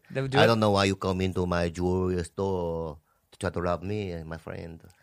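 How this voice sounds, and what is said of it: Put-on accent. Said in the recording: “I'm going to have that accent.”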